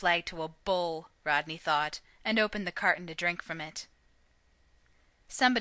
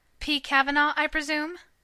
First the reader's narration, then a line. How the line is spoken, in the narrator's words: he said brightly